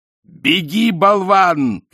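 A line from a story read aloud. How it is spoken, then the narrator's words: Shouting. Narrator (Russian): крикнул Ринцвинд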